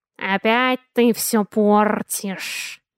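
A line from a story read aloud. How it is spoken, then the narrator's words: Hissed. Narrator (Russian): Раздалось шипение откуда-то слева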